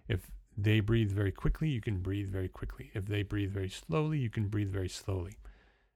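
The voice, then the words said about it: New Jersey accent. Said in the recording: “my accent changes from New Jersey, which is what you're hearing right now ... I'm a Jersey boy”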